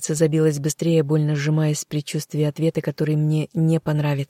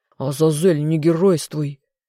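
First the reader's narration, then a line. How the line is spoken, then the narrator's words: Angry growl. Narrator (Russian): в сердцах рыкнул его величество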